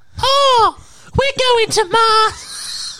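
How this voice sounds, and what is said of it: Cartoon character voice. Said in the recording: “sound like Mort”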